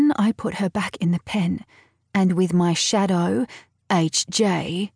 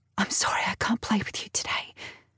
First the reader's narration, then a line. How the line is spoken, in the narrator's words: whisper